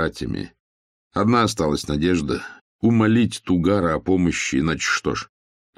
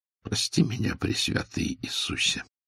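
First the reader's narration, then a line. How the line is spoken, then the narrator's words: Whisper. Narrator (Russian): прошептал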